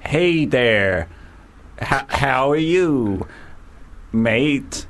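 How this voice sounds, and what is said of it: Bad put-on American southern drawl. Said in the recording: “try, like, American now ... This is awful ... You sound like a CD on skip ... That sounds American, doesn't it? A bit of a southern drawl.”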